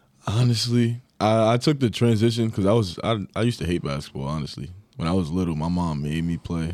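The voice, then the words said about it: New York accent. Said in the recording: “two contrasting voice styles ... the pride of Long Island here ... then you've got the New York”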